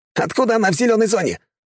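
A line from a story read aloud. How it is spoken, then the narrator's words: Yelling. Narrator (Russian): вопил второй пулеметчик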